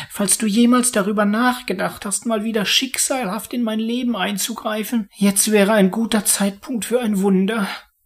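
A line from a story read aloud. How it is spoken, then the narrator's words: Pleading. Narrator (German): flehte er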